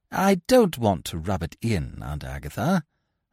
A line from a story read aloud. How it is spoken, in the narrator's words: I said coldly